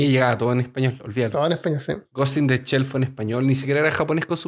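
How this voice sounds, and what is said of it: Usual voice. Nothing is said of it.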